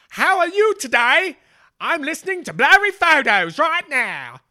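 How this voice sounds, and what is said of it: Attempted Somerset English accent. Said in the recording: “I'll have to listen to a Somerset accent and figure it out.”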